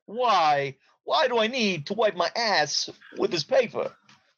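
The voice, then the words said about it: Terrible Christopher Walken impression. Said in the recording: “Or Christopher Walken. ... that was a terrible impersonation ... That was two terrible impersonations ... Three Walkens together.”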